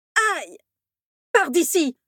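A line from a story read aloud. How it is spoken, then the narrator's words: Furious shout. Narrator (French): s'écria Rogue hors de lui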